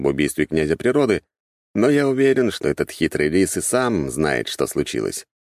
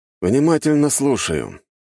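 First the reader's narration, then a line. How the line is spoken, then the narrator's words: Lazy reply. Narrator (Russian): лениво ответил я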